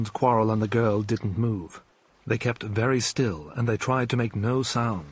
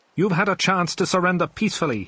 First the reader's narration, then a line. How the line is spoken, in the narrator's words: he shouted